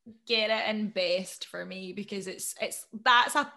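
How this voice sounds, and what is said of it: Usual voice. Nothing is said of it.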